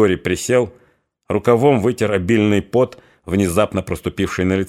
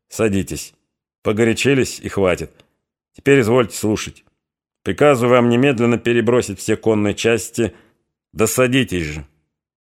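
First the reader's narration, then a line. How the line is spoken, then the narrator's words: Completely calm. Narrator (Russian): И уже совсем спокойно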